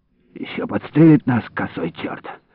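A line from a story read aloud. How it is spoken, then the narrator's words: Muttered. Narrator (Russian): пробормотал Иларион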